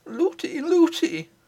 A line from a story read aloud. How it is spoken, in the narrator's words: cried the princess